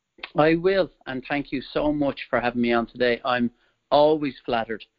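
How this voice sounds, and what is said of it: Irish accent. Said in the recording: “the listeners can hear some of my accent. I'm originally from Ireland”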